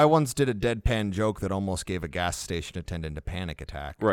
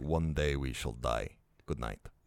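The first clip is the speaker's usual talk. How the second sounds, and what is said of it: Put-on European accent sounding Russian. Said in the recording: “very German ... all of my European accents devolve into Russian”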